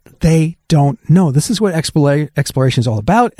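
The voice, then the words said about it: Excited, enthusiastic voice. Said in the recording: “you can tell from my voice, I'm super stoked about this.”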